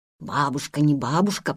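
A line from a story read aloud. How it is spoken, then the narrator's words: Whisper. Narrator (Russian): прошептал он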